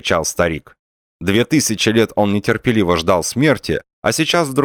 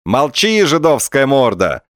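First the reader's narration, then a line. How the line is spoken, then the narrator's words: Joyful shout. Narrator (Russian): радостно закричал губатый атаман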